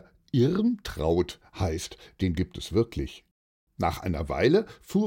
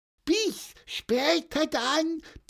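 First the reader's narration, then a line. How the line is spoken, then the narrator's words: Squeaky voice. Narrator (German): piepste er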